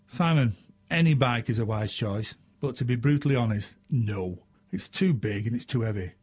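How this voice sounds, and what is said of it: Northern English accent. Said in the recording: “It's my English northern accent. We do talk a little strange up here.”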